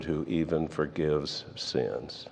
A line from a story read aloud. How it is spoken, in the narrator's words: they muttered